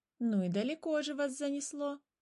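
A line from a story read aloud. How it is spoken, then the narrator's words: Laughing. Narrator (Russian): засмеялась первая птица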